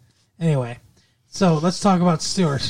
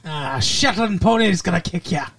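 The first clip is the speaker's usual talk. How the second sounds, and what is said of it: Put-on Scottish accent. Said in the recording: “my Scottish accent is great”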